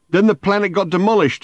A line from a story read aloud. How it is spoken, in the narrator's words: he shouted